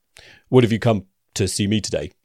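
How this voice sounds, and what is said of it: Unusually deep voice. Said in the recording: “I don't know why his voice is so deep ... Mr. Deep Voice”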